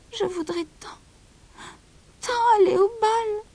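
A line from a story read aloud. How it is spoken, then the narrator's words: Sighing. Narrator (French): soupira Cendrillon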